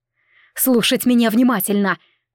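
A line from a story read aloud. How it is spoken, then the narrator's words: Barked command. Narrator (Russian): рявкнула на дюжину мужиков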